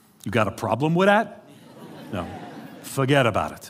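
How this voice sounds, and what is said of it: Exaggerated New York accent. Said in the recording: “I grew up in New York City ... That's actually the way my father talks. He talks like this all the time.”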